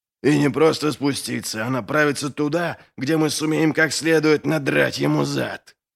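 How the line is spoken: Hissing. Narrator (Russian): прошипел Доу

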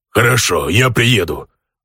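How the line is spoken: Orc's growl. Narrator (Russian): рыкнул орк

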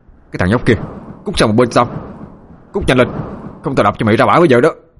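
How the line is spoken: Loud shout. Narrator (Vietnamese): Khang hét to

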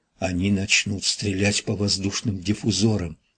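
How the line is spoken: Whisper. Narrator (Russian): прошептала Амелия

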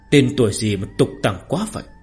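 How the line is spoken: Soft mocking. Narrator (Vietnamese): Ninh Diêu khẽ mỉa mai một câu

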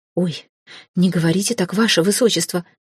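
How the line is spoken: Frightened exclamation. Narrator (Russian): Испуганно всплеснула руками Нина

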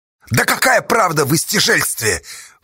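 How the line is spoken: Mocking shout. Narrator (Russian): глумливо крикнула Сташа

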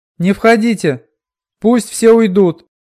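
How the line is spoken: Frantic shout. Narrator (Russian): крикнула она, едва соображая, что говорит

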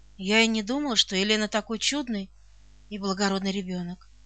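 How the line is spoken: Affectionate. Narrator (Russian): Тетя Нелли произнесла ласково

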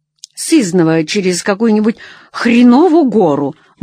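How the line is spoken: Gruff mutter. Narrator (Russian): буркнула Нелли

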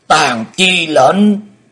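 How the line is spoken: Loud roar. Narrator (Vietnamese): Xích Phát Âm Ma gầm to

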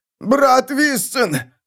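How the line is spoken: Wounded man shouting. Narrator (Russian): крикнул раненый сектант

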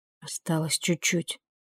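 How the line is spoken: Quiet. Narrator (Russian): тихо сказала Вилора

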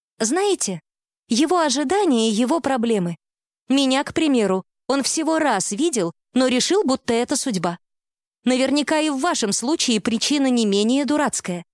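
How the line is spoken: Very cheerful voice. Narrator (Russian): она самым бодрым голосом из своего арсенала произнесла

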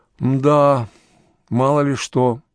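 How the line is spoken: Sigh. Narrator (Russian): вздохнул Громов

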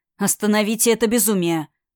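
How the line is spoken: Growl. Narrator (Russian): рыкнул Амир

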